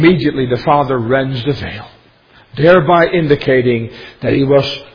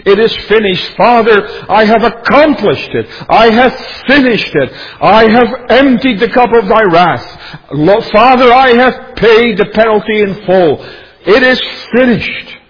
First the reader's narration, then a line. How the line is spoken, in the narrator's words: the Savior cried out triumphantly